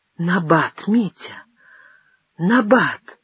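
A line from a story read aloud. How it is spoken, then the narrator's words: Terrified babbling. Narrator (Russian): пролепетала Мария в ужасе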